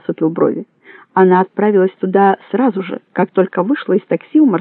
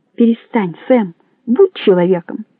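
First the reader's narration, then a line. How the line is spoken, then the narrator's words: Calm. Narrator (Russian): сказал спокойно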